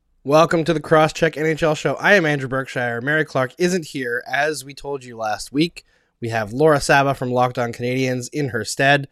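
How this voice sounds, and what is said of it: Slightly rough, hoarse voice. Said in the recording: “hear the remnants in my voice ... It was a bad, bad sore throat”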